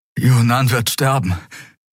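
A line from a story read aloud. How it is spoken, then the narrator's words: Panting. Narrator (German): keuchte Kai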